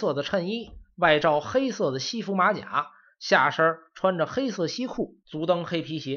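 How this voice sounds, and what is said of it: Usual voice. Nothing is said of it.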